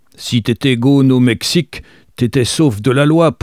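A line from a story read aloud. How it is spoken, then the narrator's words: Very loud voice. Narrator (French): poursuivit-il d'une voix très forte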